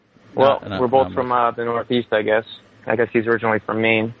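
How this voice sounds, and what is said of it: Mild toned-down Boston accent. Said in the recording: “You don't have the thick Boston accent, but that's what it, I guess that's what it sounds like if it's toned down.”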